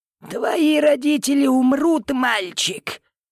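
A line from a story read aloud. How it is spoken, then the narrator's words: Girl, creepy old voice. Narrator (Russian): Девочка мерзким, почти старческим голосом сказала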